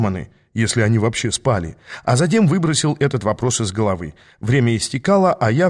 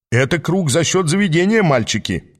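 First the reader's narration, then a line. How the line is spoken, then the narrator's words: Cheerful laugh. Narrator (Russian): весело хохотнула фигура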